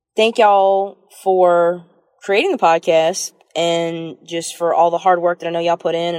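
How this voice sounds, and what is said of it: Southern American accent. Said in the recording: “I am so charmed by that particular accent. I love that accent. ... I'm also like melting a little bit at at the accent ... a little bit of a more pronounced Southern accent”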